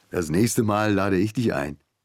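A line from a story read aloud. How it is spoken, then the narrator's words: Laughing. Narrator (German): Joseba, lachend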